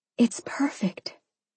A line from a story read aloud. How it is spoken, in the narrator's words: I whispered